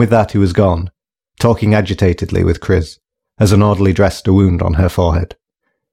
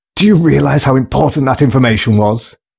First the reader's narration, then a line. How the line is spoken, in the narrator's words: heard him yell